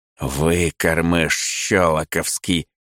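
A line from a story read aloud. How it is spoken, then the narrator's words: Hissed through teeth. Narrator (Russian): цыжу я сквозь зубы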